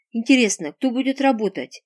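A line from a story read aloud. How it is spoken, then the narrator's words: Snorting boss. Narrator (Russian): хмыкнул шеф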